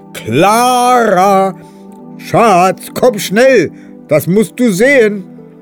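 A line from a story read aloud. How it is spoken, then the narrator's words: Loud calling. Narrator (German): beginnt laut zu rufen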